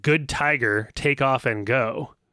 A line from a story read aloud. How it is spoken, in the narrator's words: the word tiger is overlapped by the growl from the tiger